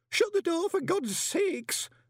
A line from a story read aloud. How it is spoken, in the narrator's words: moaned Horsefry